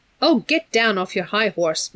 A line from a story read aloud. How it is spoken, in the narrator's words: Meg said crossly